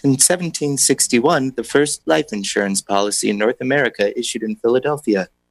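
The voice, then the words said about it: Public radio announcer voice. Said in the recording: “I'm going to do it in my public radio voice.”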